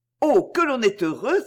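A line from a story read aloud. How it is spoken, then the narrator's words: Old woman exclaiming. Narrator (French): s'écria la vieille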